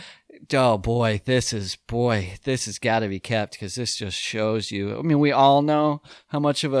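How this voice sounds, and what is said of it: Usual voice. Nothing is said of it.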